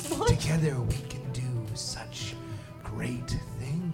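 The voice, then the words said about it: Sultry, seductive character voice. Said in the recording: “Oh, sounds so hot. ... sexy voice”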